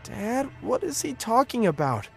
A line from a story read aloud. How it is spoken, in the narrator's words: I asked, my voice trembling